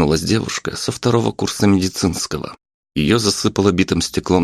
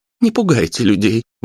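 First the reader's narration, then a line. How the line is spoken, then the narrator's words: Woman exclaiming. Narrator (Russian): воскликнула женщина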